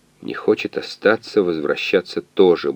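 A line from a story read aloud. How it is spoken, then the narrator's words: Grumbling. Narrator (Russian): буркнул химик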